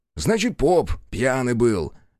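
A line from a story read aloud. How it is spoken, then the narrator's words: Irritable snap. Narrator (Russian): огрызнулся Бучило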